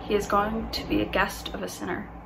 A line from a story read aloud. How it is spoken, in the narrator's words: All the people began to mutter